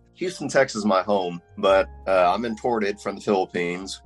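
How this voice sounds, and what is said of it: Texan American accent. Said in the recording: “from my accent, as you can tell, I was raised here”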